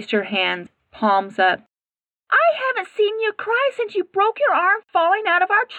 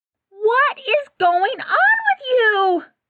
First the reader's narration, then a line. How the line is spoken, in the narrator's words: Sam yelled, her frustration evident in every syllable